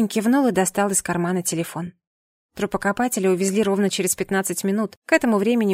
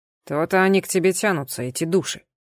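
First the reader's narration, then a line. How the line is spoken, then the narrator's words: Young man grumbling. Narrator (Russian): проворчал парень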